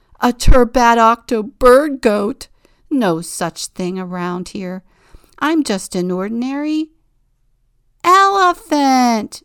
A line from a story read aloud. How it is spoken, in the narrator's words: they all shout together